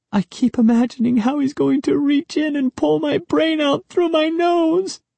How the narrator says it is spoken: Sari wailed

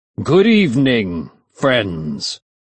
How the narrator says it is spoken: he shouted in a deep voice

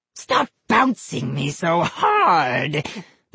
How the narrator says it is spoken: the dummy rasped

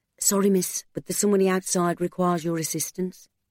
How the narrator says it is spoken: The church warden whispered in her ear

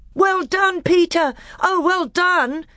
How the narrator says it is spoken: shouted Edmund

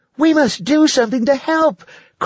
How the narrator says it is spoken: cried Lacey

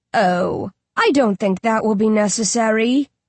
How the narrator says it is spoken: Dan Dan purrs

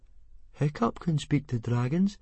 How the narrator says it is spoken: said Fishlegs very quietly from the middle of the crowd

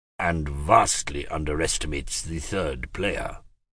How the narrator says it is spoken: he added in a low voice to Dominic

